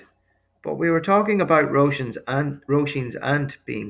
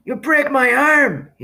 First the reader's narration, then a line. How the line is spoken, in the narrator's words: he cried